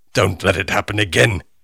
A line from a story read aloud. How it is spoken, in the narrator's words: snapped